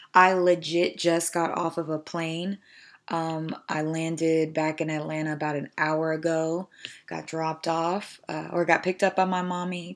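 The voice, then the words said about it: Slightly raspy voice. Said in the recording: “forgive my voice. It's a little raspier than norm.”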